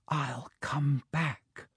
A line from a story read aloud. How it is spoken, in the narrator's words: whispered